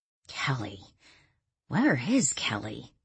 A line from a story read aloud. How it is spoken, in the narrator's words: Danielle murmured